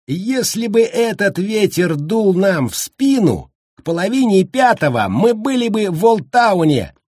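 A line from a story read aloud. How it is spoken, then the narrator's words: Cheerful shout. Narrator (Russian): весело прокричал Баркович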